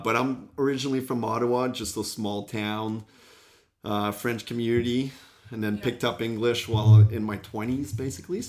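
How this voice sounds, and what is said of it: Mixed French, English and Australian accent. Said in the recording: “my accent come from ... there's a little bit of everything now. A little bit of English, French, and Oz”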